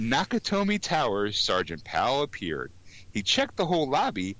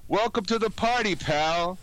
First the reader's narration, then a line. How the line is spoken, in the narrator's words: John yelled with delight